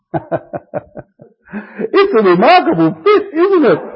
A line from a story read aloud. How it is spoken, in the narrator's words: exclaimed the emperor